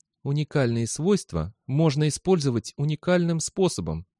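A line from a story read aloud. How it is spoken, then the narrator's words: Quiet reply. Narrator (Russian): также тихо ответил Мандамус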